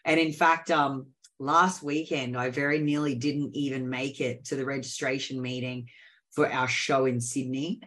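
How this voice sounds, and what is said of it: Sick, unwell-sounding voice. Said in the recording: “as you can tell by my voice, I've been pretty sick. This is probably the best I've sounded in about 2 weeks.”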